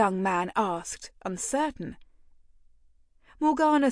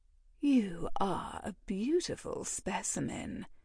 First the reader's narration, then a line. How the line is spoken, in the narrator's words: purred